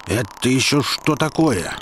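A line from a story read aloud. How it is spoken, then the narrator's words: Indignant question. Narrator (Russian): возмущенно спросил миллиардер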